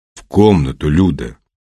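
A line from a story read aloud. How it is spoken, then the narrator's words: Gloomy. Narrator (Russian): мрачно сказал Петр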